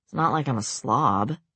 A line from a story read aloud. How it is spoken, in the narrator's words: he muttered